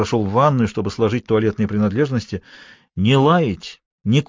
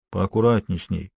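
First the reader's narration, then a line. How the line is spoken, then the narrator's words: Quiet. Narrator (Russian): тихо сказал Джон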